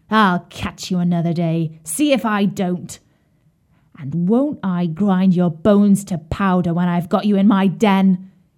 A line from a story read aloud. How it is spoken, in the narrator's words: snarled fiercely